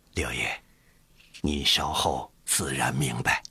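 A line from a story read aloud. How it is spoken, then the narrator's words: Quiet voice. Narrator (Chinese): 刘统勋小声说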